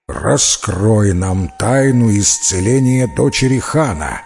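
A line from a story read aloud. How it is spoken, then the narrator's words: Menacing. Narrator (Russian): грозно сказал старший джин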